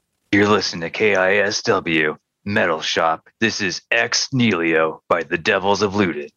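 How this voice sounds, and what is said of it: Cheesy radio DJ voice. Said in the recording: “your cheesiest radio DJ impression”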